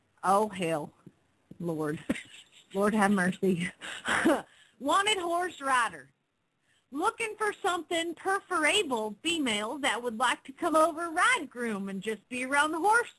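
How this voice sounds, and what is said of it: Put-on Southern US accent. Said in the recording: “I think you have to do your southern accent then for this one”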